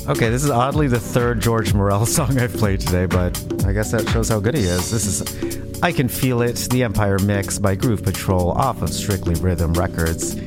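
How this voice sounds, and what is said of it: Put-on radio DJ voice. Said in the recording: “this is my radio voice that my boyfriend is making fun of right now”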